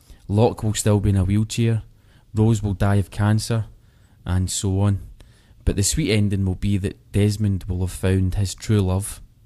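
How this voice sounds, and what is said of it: Scottish accent. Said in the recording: “from Scotland ... I love listening to his accent.”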